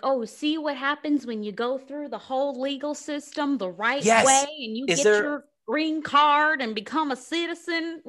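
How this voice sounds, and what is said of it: Put-on white Southern American accent. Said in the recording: “you're using a white Southern accent for them”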